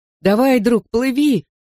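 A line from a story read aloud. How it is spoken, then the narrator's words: Shouted. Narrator (Russian): крикнул я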